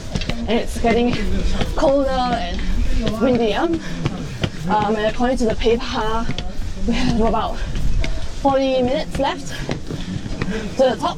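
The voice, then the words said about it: Out of breath, panting speech. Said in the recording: “I'm starting to get really out of breath.”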